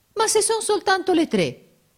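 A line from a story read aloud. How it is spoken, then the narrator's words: Offended exclamation. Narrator (Italian): esclamò Giorgio in tono d'offesa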